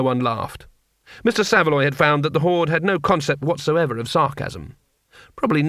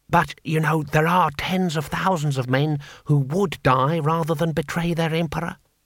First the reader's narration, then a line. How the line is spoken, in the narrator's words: whispered Six Beneficent Winds